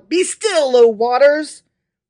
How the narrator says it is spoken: the Almighty cried out

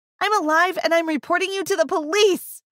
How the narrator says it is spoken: I screamed

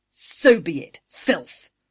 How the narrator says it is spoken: Angry snarled

